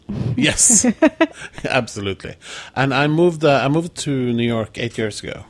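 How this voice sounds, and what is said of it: Norwegian accent. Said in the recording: “I grew up in Oslo, Norway. ... hence your delightful accent.”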